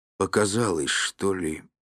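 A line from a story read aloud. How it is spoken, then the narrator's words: Muttering. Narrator (Russian): пробормотал Михаил Никифорович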